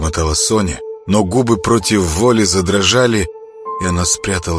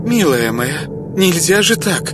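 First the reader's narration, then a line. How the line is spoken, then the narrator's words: Agitated muttering. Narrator (Russian): взволнованно бормотала Ида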